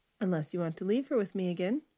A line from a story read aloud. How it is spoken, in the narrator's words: Stephanie answered cheerfully